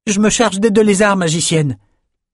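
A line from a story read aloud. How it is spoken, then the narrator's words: Shouting. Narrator (French): cria Bannon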